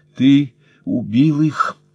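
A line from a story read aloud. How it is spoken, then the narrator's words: Breathed out. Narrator (Russian): выдохнула Марта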